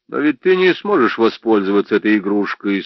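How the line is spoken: Calm reply. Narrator (Russian): спокойно ответил

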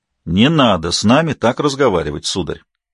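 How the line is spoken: Stern warning. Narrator (Russian): Строго предупредил его Норта

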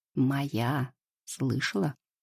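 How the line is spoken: Hoarse. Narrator (Russian): хрипло произносит

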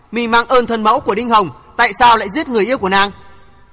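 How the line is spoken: Cold scoffing young woman. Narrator (Vietnamese): Thiếu nữ bịt mặt hừ một tiếng lạnh lùng nói

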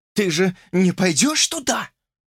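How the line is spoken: Wheezy rasp. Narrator (Russian): просипела она

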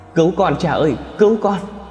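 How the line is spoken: Desperate screaming. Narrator (Vietnamese): Kim Loan đang vùng vẫy gào thét

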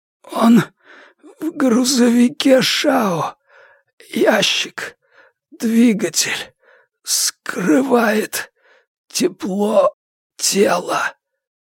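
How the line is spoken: Breathless, hurried. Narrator (Russian): выдохнул Хан, пытаясь сообщить как можно больше

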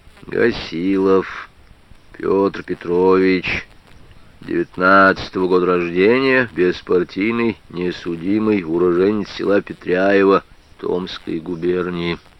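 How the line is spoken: Lazy mumble. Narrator (Russian): Прохоров лениво пробормотал

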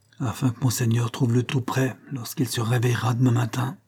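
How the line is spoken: Murmuring. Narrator (French): murmura-t-il

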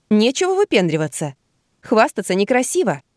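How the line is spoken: Laughing. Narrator (Russian): засмеялась

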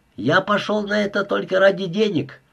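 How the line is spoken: Shouting. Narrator (Russian): кричал Милошевич

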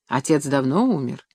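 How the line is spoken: Pained sigh. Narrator (Russian): Никонов, изобразив на лице страдальческую гримасу, вздохнул

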